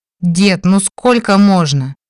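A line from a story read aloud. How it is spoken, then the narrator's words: Wail. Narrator (Russian): взвыл Димарий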